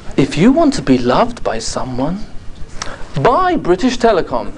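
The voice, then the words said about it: Put-on English accent. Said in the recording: “in an English accent, which I can do quite well.”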